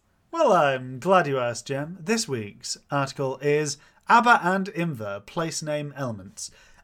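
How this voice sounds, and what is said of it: Put-on radio announcer voice. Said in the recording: “in your best radio voice?”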